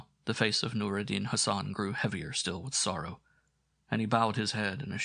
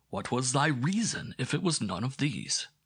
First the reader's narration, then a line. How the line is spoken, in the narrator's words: cried Ahmed bin Bakkar, greatly puzzled